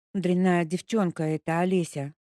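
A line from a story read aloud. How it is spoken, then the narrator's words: Toothless drooling mumble. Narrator (Russian): прошамкала она, пуская слюни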